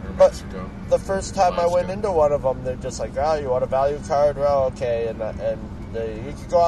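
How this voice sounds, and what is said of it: Usual voice. Nothing is said of it.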